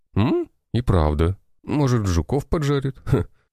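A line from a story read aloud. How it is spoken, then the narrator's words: Chuckling man. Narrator (Russian): Хохотнул турок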